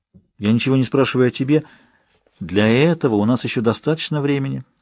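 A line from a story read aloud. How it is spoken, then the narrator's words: Soft. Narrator (Russian): мягко ответила она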